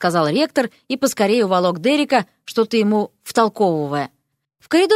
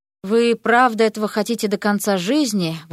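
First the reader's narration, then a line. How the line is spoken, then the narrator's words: Breathed out. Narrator (Russian): выдохнул Эрик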